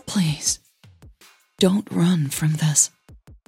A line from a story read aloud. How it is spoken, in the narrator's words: whispered